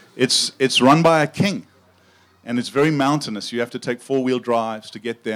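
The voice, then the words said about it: South African accent. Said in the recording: “I grew up in South Africa, and uh, my accent is not quite as cool as Sam's, but it does make me sound smarter than I am.”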